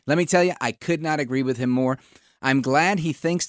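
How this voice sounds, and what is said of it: Usual voice. Nothing is said of it.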